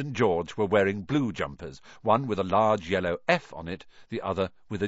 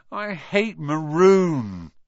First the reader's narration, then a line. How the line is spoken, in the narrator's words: Ron moaned half-heartedly